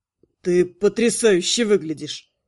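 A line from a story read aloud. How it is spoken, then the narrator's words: Admiring breathless exclamation. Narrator (Russian): Восхищенно выдохнул прямо с порога Найр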